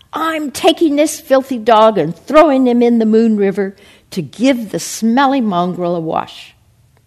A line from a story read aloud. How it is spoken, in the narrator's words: The driver, deciding to have some fun at the American's expense, shouted back